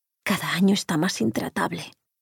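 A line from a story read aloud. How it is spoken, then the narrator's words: Murmured. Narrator (Spanish): le murmuró Laura a Omar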